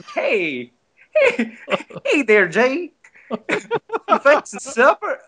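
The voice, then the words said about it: Southern accent with Filipino accent. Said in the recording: “he has an accent with a Filipino accent ... there's a Southern Filipino ... That's an awesome accent”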